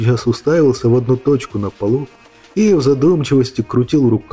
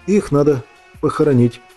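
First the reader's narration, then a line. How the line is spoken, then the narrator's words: Uncertain suggestion. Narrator (Russian): как-то неуверенно предложил Иван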